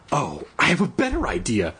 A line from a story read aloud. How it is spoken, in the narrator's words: she exclaimed